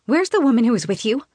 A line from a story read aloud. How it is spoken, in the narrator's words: I ask Elena urgently